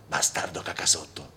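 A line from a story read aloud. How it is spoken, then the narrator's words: Panting in pain. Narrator (Italian): disse Jerry ansimando per il dolore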